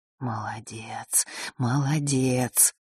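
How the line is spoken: Whispered, queen. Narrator (Russian): прошептала черная королева

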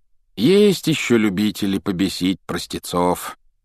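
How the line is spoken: Sigh. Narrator (Russian): вздохнул мистер Уизли

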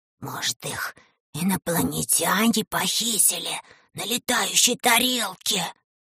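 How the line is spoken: Whispered. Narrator (Russian): шепотом сказал Леший

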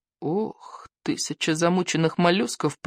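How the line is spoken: Moaning. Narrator (Russian): простонал Икинг

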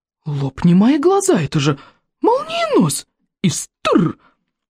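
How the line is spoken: Amazed old man's exclamation. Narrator (Russian): воскликнул в изумлении старейший старейшина

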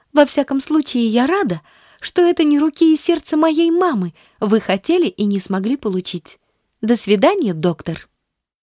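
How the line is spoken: Beaming exclamation. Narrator (Russian): воскликнула, просияв

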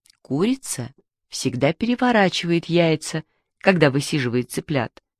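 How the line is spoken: Plain. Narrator (Russian): сказала Мишкина мама

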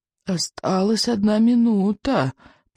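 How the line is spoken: Old man whispering. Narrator (Russian): прошептал старый сморчок

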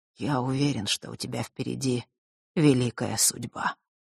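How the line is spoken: Older man muttering. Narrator (Russian): пробормотал Нортон-старший

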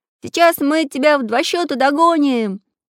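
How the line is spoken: Cheerful shout. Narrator (Russian): весело закричал Прутик

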